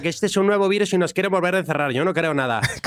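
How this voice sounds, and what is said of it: Put-on Spain Spanish accent. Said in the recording (Spanish): “Bueno, pero con acento, ¿no? ... Con acento, sí.”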